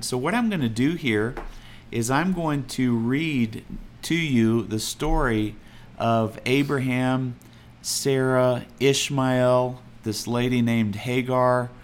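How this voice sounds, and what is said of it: Texas accent. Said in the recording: “I'm probably saying it in a Texas accent.”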